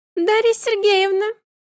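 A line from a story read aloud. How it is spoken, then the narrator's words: Unexpectedly squeaky voice. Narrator (Russian): Неожиданно писклявым голосом произнесла Акулька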